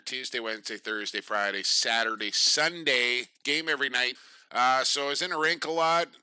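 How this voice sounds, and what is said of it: Worn, strained voice. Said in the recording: “I've been calling lacrosse since Tuesday, as you can probably tell from my voice here.”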